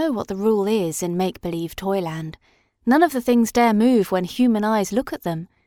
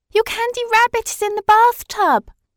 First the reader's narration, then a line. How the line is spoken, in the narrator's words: screamed Mirabel